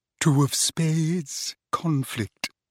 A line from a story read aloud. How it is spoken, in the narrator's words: she murmured